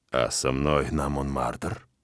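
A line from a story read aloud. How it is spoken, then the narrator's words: Husky velvety question. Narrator (Russian): Спрашиваю я хрипловатым бархатистым голосом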